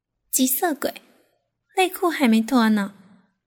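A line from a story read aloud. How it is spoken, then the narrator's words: Coquettish giggle. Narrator (Chinese): 立方娇笑道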